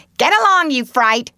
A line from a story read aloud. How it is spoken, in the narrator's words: screamed Polly